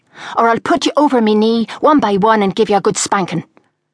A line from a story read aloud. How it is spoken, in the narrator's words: Bernie yelled